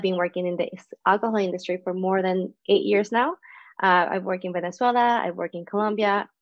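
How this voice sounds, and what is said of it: Venezuelan Spanish accent. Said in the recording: “As you know for the accent, I'm not from Canada either. I'm from Venezuela.”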